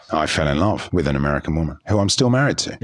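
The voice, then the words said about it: English accent, sounds sophisticated. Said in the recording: “Your accent gives it away immediately. You're not originally from America. ... having an English accent ... You sound sophisticated.”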